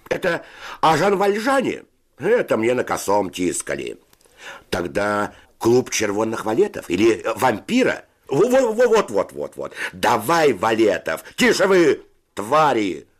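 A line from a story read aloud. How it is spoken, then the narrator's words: Shouting. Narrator (Russian): закричал Федя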